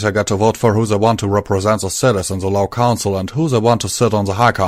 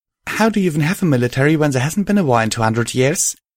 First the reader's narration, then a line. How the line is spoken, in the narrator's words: I blurted, trying to sort through my confusion